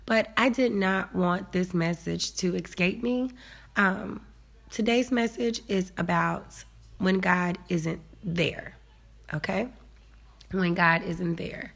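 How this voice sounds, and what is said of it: Congested, slightly weird-sounding voice. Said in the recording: “my voice sounds a little weird today because I have a sinus infection”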